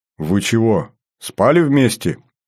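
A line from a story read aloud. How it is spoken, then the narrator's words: Laugh cut short. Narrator (Russian): хохотнул я и осекся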